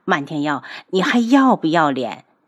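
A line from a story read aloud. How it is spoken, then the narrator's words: Through gritted teeth. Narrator (Chinese): 楚清瑶咬牙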